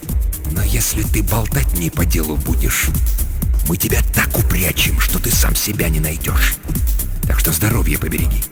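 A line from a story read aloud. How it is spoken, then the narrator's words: Disgusted hiss near ear. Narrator (Russian): наклонился к его уху и, брезгливо морщась, прошипел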